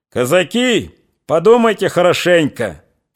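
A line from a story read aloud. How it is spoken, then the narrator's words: Shouted. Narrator (Russian): крикнул он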